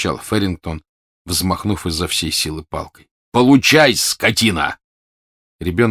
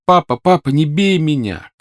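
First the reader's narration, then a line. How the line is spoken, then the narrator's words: Shouting. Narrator (Russian): кричал он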